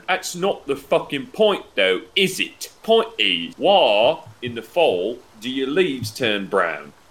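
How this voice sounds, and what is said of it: Put-on King George III accent. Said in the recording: “once again changed his accent ... Like King George III.”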